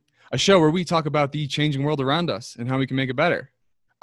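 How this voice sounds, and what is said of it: American accent. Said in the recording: “with my American accent”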